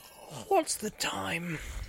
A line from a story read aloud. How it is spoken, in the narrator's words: He said sleepily